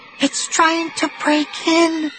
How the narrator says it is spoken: Sheena said in a trembling whisper

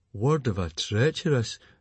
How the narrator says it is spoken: groaned Fishlegs

